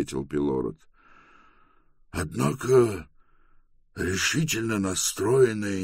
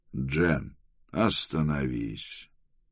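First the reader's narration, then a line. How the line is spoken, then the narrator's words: Soft. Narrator (Russian): мягко сказал Трэвис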